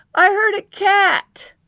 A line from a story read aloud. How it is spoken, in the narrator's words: he shouted down